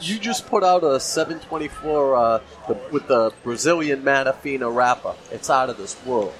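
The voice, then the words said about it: New England accent. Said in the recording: “I love the New England accent.”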